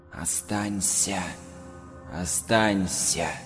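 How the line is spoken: Rustling voice. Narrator (Russian): Лида шелестя

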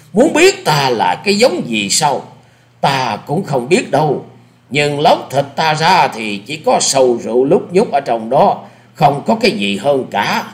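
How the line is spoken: Laughing loudly. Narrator (Vietnamese): Lão cười to

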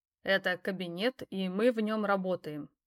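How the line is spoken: Calm reply. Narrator (Russian): спокойно ответил я

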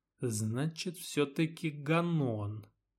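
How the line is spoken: Muttered under breath. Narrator (Russian): пробормотал себе под нос Чайка

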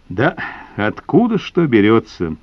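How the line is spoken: Sigh. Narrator (Russian): вздохнул Нетесов

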